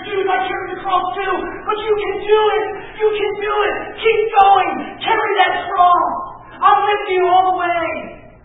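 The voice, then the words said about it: Yelling preacher. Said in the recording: “I'm sorry I'm yelling, guys.”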